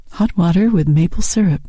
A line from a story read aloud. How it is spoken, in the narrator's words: he said